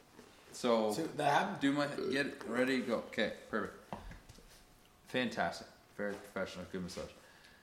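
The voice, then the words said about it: Voice nearly gone, worn out. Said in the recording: “I don't have a voice. I've lost my voice.”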